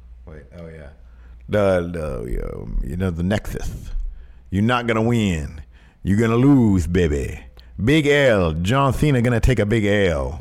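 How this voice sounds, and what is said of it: Dusty Rhodes impression. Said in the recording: “Hello, Dusty.”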